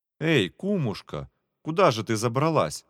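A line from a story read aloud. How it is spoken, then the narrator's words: Exclamation. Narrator (Russian): воскликнул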